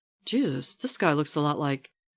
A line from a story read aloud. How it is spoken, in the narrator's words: Whatever Steve begins to say is drowned out